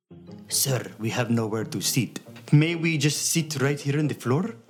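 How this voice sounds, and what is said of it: Mocking put-on accent. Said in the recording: “making fun of this family's accent”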